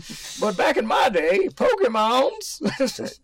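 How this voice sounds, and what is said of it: Old grandpa voice. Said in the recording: “I'm just gonna speak my grandpa voice for a second.”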